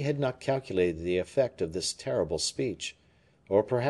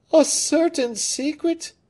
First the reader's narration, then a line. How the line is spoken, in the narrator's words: cried Anne of Austria